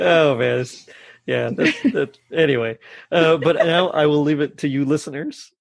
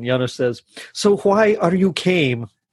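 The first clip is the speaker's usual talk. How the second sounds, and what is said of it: Very good put-on accent. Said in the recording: “That accent, though, you might have pulled through. That was very good.”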